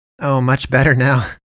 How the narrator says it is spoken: James says with a chuckle

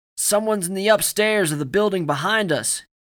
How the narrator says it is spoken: he nearly shouted

